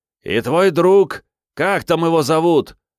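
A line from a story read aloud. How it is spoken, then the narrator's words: Shouted. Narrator (Russian): крикнул еще кто-то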